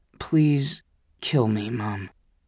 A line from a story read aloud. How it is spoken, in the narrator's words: I muttered